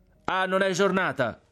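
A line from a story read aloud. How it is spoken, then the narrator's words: Exasperated shout. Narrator (Italian): gridò il frate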